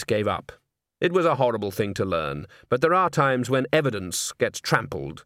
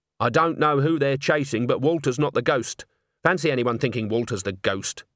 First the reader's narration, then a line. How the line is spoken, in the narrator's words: said Agnes hotly